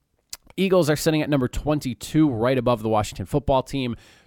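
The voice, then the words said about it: Hoarse, strained voice. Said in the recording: “I'm like losing my voice here.”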